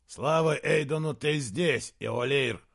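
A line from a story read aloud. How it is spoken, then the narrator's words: Barked. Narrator (Russian): рявкнул он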